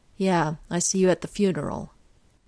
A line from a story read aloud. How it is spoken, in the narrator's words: Janos says flatly